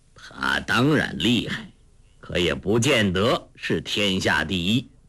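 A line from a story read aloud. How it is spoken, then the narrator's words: Cold. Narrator (Chinese): 洪七公冷冷地说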